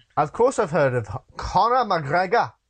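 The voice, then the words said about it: Put-on Irish accent. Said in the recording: “That was my Irish accent.”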